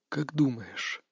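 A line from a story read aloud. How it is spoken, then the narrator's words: Through teeth, breathing deeply. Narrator (Russian): процедил он, делая несколько глубоких вдохов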